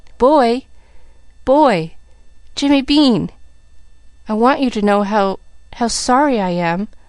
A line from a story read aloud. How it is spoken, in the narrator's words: she panted